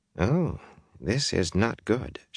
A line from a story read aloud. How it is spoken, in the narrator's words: murmured